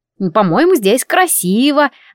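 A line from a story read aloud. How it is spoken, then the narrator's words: Forced cheerfulness. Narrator (Russian): нарочито весело сказала я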